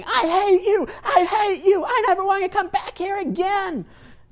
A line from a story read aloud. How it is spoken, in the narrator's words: he's screaming, he's yelling, he's looking at me and saying